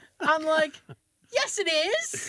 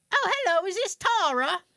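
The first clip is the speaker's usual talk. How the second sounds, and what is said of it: Bad put-on British accent. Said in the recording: “I do a horrible British accent ... I love this fucking accent.”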